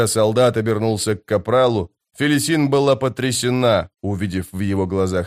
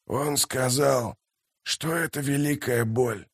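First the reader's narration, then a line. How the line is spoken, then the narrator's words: Mumbling. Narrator (Russian): пробормотал морпех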